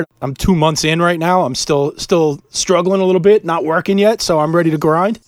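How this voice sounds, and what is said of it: Sick, strained voice. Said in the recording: “You might be able to hear it in my voice. I apologize if I cough ... COVID hit us pretty hard”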